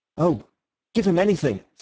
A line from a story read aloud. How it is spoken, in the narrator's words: said Syme eagerly